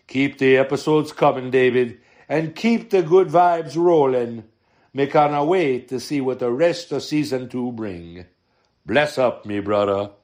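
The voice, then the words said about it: Jamaican accent drifting toward Italian. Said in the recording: “That accent went Italian real quick ... He might be a multicultural Jamaican”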